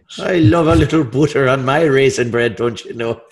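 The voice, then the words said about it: Put-on Irish-sounding accent. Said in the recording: “Sounds Irish when you say it.”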